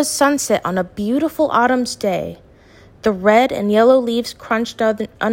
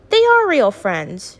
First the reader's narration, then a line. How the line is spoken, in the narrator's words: Eva shouted